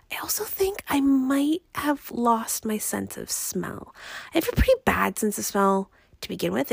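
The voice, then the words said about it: Raspy, congested voice. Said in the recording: “my voice isn't quite back to uh, where it should be ... my voice is still quite raspy ... I'm still quite congested ... my voice is definitely not where it should be”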